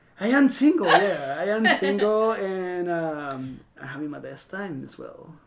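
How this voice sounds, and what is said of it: South American Venezuelan accent. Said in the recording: “What do you guys think this man's accent is? Are you French? ... I'm actually Venezuelan. ... I'm a South American guy, and that's where my accent's coming from.”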